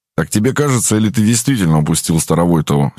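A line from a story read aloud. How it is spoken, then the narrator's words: Angry question. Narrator (Russian): сердито спросил Сагайдачный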